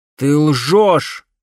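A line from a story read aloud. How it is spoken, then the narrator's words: Shout. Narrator (Russian): крикнул Грановский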